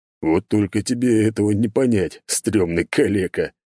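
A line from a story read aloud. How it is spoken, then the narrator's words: Loud laughing. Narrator (Russian): громко рассмеялся Артемий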